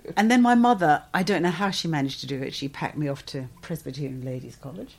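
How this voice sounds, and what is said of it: English accent. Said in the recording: “you've got that English accent, you've learned that in your adulthood”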